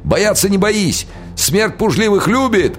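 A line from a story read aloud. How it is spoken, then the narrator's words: Yelling. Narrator (Russian): орал он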